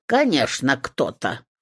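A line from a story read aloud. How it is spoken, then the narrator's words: Snorted. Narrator (Russian): фыркнула избушка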